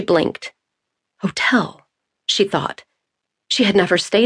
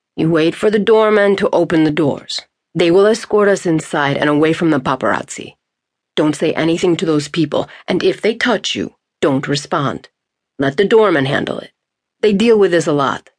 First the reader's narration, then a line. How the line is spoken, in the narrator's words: he said